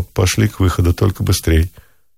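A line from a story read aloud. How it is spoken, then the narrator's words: Short quiet remark. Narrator (Russian): коротко и тихо бросил Самсонову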